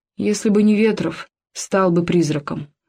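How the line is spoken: Plain. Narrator (Russian): говорит Мангулов

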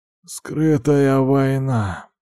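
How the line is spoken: Hoarse answer. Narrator (Russian): ответил хриплым голосом

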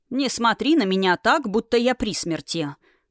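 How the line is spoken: Grumbling. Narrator (Russian): проворчал бывший король

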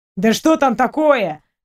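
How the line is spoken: Indignant question. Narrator (Russian): возмущенно спросил Ваня

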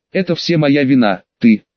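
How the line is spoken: Roaring. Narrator (Russian): взревела Мисти

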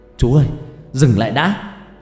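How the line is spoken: Startled shout. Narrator (Vietnamese): Tôi giật mình hét lên

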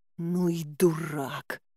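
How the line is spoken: Hissed through teeth. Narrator (Russian): прошипела сквозь зубы

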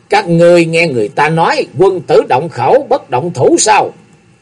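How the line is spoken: Laughing. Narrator (Vietnamese): Ông Hồng Nguyên bật cười nói

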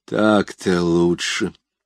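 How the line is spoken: Relieved sigh. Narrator (Russian): облегченно вздохнул Язон

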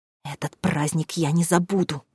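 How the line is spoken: Hissed. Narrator (Russian): прошипела

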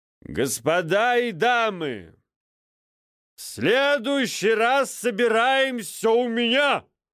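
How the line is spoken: Loud proclamation. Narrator (Russian): Громко провозгласил Грегор Вильямсон

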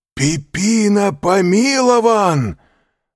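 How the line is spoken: Shouted. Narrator (Russian): закричал Андреа

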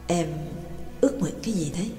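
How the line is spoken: Soft question. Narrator (Vietnamese): Trương Lập mới khẽ hỏi

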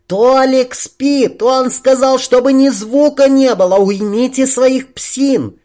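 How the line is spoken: Shrill shout. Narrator (Russian): светлая визгливо прокричала

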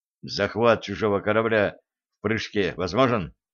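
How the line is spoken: Quiet whisper in ear. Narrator (Russian): тихо шепнул Блад на ухо бортмеханику

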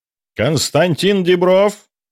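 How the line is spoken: Booming professor's voice. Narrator (Russian): прогремел голос профессора

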